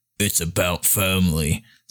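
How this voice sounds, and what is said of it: Poor Vin Diesel impression. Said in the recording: “my Vin Diesel impression. Um, it was terrible, by the way.”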